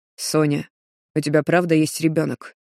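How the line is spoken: Hoarse voice. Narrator (Russian): Его голос звучит хрипло, словно Рустам простужен

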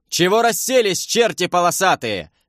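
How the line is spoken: Yelling. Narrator (Russian): завопил я на ополченцев

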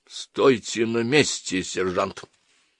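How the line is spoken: Cold command. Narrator (Russian): холодно приказал Шуман

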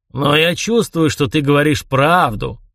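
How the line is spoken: Gloomy. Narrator (Russian): мрачно закончил Фьялбьорн

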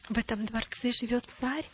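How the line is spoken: Boy's whispered question. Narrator (Russian): шепотом спросил мальчик у своей мамы

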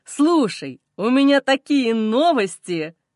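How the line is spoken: Joyful. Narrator (Russian): Радостно произносит

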